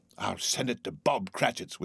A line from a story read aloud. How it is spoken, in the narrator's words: whispered Scrooge, splitting with a laugh